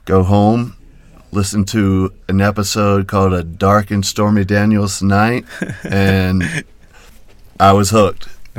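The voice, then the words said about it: Slight Southern twang. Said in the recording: “I'm hearing a little twang, man. Where are you from? ... North Carolina.”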